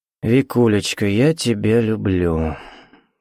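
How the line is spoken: Gloomy. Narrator (Russian): мрачно сказал Сергей

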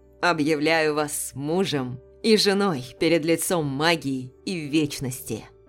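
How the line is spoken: Booming voice. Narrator (Russian): Прогремел голос магистра

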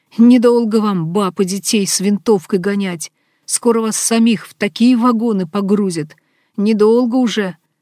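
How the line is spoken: Angry worker shouting loudly. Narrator (Russian): Рабочий громко крикнул

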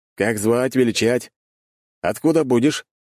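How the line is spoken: Lively loud rapid chatter. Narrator (Russian): тот живо и громко тараторит

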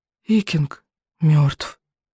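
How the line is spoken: Whisper. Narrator (Russian): прошептал рыбьенок

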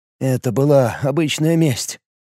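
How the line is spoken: Quiet. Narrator (Russian): тихо произнес Лиур

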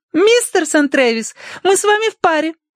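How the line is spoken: Breathless exclamation. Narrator (Russian): воскликнула, подбегая

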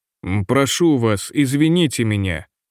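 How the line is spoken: Plain, old man. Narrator (Russian): сказал старик

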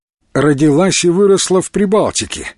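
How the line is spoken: Sudden laugh. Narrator (Russian): неожиданно рассмеялся Илья

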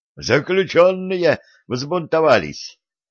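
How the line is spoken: Shouting. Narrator (Russian): крикнул один из покинувших тюрьму стрельцов

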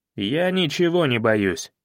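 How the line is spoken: Eager snapping retort. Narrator (Russian): азартно огрызнулся он

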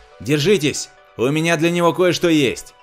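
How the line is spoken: Frantic shout. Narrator (Russian): Роджер неистово закричал

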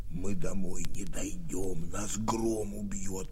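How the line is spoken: Whisper. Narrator (Russian): прошептал Антошка

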